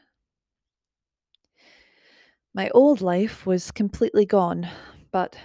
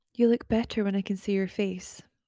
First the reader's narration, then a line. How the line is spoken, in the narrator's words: said kindly